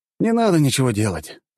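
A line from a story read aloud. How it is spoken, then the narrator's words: Sigh. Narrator (Russian): вздохнул я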